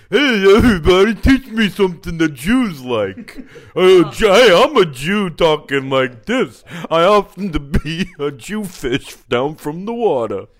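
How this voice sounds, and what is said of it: Put-on dumb-person character voice. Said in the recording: “your impression... you were just trying to do a dumb person who happens to be Jewish”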